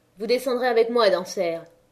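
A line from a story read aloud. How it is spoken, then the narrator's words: Curt. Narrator (French): dit Négrel d'une voix brève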